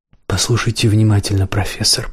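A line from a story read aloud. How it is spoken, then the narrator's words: Whisper. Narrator (Russian): прошептал убийца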